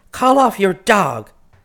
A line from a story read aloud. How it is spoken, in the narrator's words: Twinkle yelled, wildly excited